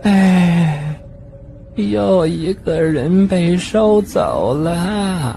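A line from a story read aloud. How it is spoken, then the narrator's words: Sighing. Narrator (Chinese): 她就叹口气说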